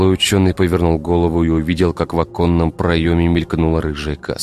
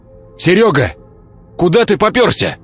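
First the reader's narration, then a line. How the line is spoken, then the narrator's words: Man shouting. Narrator (Russian): Крикнул один из строителей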